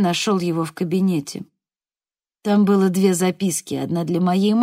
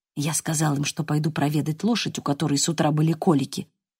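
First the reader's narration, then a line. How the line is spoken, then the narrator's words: Whisper. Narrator (Russian): прошептал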